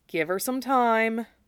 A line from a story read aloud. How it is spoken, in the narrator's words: Zack murmured